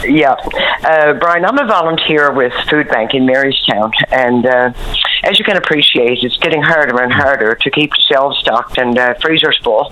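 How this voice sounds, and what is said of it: Rough, sick-sounding voice. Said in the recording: “Excuse my voice, but I have a dirty old cold.”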